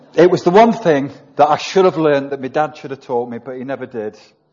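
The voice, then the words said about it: Mansfield English accent. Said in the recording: “You talk in a Mansfield accent.”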